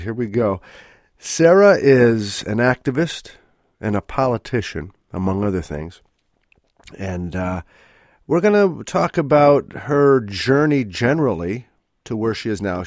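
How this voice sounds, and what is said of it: Congested voice from a cold. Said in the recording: “I have a bit of a cold, so it's a little different, maybe sounding my voice”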